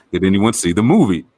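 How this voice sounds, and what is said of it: Imitates another person's accented voice. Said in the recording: “Also like the accent”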